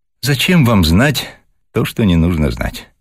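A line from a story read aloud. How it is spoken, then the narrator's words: Open sigh. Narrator (Russian): Откровенно вздохнула Вера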